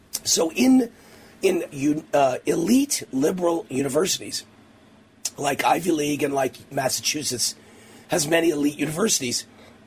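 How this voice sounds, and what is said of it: Strained, fading voice. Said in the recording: “my voice is going, I've been talking all day and on the radio all day, and it's just going out right now.”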